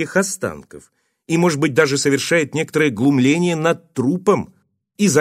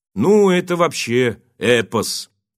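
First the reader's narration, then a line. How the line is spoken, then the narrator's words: Indifferent reply. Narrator (Russian): Игорь откликнулся на рассказ водителя таким равнодушным голосом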